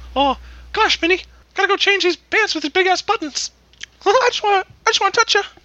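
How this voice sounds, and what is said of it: Mickey Mouse impression. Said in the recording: “the way I said it sounded a little bit like Mickey Mouse”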